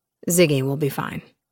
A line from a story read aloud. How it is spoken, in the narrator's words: he said